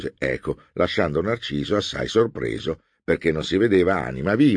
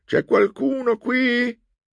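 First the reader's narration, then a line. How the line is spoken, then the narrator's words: Shouted. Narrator (Italian): Narciso gridò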